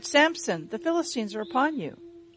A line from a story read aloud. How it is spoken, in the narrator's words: She cried